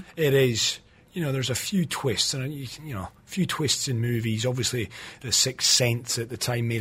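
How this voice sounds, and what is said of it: Usual voice. Nothing is said of it.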